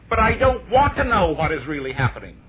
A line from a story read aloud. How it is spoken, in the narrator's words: the lady suddenly stood up and cried